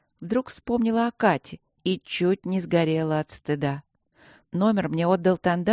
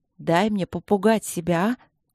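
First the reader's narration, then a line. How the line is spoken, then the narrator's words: Snapping, then sighing. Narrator (Russian): огрызнулась я на внутреннюю ехидну и вздохнула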